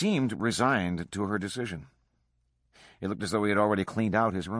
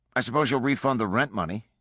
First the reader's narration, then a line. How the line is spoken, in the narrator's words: he said curtly